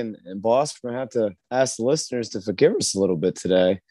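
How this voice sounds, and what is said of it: Hoarse, worn-out voice. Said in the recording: “my voice is not in game shape after how ruckus we were on Saturday night ... Our voices are gone.”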